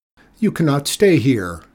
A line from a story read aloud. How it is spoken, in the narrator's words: Rico shouted